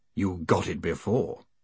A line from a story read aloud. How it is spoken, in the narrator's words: murmured Gilt